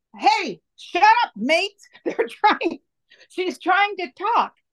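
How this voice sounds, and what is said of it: Quoted line in Australian accent. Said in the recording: “her Australian lilt accent”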